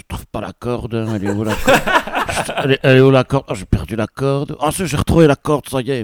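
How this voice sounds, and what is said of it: Imitated Belgian French accent. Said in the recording (French): “je sentais qu'ils avaient un accent ... et c'était des Belges.”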